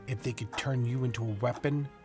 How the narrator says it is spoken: he muttered

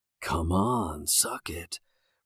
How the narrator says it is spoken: Roger said in a dark whisper

